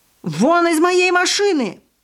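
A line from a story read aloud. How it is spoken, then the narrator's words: Distant man shouting from above. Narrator (Russian): орал какой-то мужчина сверху, похоже, из распахнутого окна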